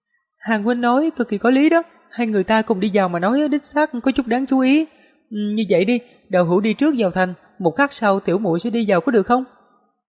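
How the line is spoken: Smiling. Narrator (Vietnamese): Tiêm Tiêm suy đoán rồi mỉm cười nói

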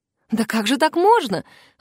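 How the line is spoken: Mother's exclamation. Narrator (Russian): воскликнула мама Элизы

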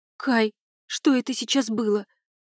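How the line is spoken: Trembling voice. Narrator (Russian): спросила Молли дрожащим голосом

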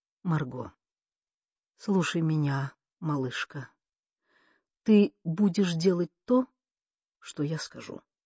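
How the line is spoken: Quiet, clipped. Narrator (Russian): тихо отчеканил

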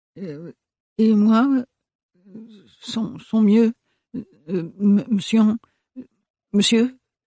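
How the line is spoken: Stammered after a pause. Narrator (French): bégaya le gendarme au bout d'un moment

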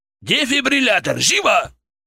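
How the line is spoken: Barked. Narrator (Russian): рявкнул Гагеберидзе

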